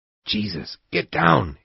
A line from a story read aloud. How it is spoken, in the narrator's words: Amo whispered